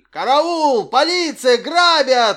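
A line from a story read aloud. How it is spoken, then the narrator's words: Wailing yell. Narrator (Russian): вопил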